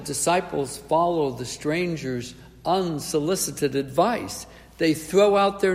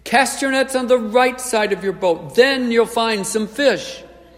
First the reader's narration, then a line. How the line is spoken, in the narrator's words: the Lord yells again